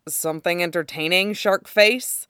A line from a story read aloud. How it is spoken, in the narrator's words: asks dryly